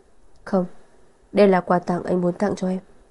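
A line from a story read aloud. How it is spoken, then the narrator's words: Tender, affectionate. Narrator (Vietnamese): Thượng Quan Triệt thâm tình nói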